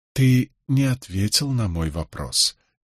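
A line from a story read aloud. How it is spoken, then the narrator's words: Gentle objection. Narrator (Russian): мягко возразил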